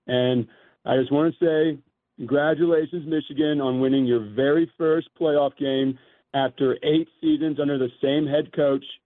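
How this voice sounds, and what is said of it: Strained, worn-out voice. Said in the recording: “If you can't tell, I took a hit yesterday. My voice is feeling the aftermath of it from screaming at the TV”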